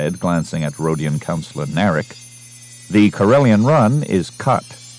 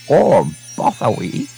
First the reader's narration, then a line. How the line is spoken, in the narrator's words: he said angrily